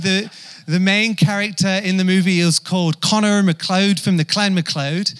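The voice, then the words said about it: Poor put-on Scottish accent. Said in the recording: “my awful attempt at a Scottish accent”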